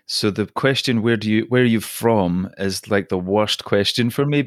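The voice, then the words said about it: Scottish accent. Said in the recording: “My accent is Scottish ... the accent is Scottish”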